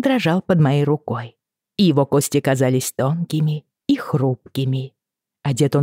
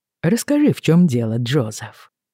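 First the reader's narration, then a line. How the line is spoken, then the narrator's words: Fairly gentle. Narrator (Russian): довольно мягко сказал он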